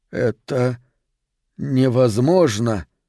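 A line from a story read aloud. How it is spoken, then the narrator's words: Flat, forced voice. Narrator (Russian): бесцветным голосом выдавил Мэкс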